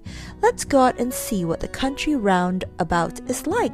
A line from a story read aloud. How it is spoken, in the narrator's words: said Joe